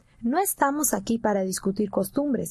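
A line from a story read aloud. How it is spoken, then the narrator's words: Plain. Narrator (Spanish): dijo el ranchero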